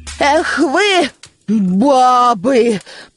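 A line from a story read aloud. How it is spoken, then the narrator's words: Loud. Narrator (Russian): произнесла громко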